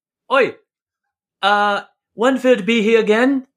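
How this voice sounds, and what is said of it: Put-on Australian accent, sounds Liverpudlian. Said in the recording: “in his best Australian accent ... whenever I do an Australian accent, it sounds like I'm Liverpoolian ... I think you're doing like a New Zealand.”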